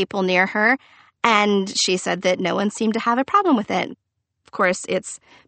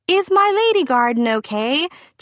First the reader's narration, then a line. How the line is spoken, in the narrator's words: English was not her first language, so she needed some help on that, yelling